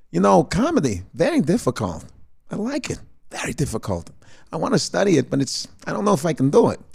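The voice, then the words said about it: Subtle imitation of an actor's voice. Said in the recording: “I started going subtle Christopher Walken.”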